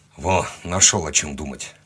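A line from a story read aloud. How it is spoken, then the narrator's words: Grumbling. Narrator (Russian): проворчал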